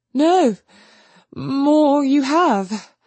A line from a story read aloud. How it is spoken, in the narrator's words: she stammered